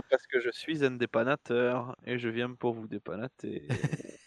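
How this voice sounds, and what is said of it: Put-on comedic accent. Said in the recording (French): “je ferai l'épisode entier avec cet accent”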